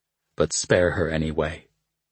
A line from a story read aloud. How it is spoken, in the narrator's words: he added quietly